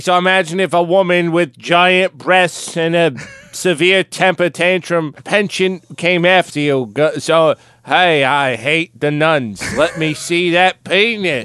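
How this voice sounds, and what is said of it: Boston accent impression of JFK. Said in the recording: “I can't even do a Boston accent. can you do it? ... JFK ... You sounded like Ben Affleck. ... he's kind of like that, Boston.”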